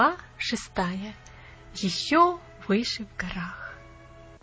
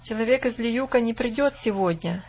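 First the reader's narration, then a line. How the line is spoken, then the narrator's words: Plain. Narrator (Russian): сказал Лоренц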